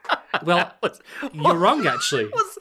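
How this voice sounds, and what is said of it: Smoker's condescending know-it-all voice. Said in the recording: “a like a smoking well actually guy ... Definitely like mid smoke ... that voice”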